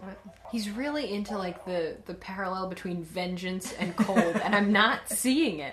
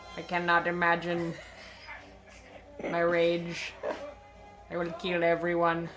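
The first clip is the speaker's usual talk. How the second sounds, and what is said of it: Flat monotone villain voice. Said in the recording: “I just don't like how monotone Mr. Freeze is. ... That's what he sounds like.”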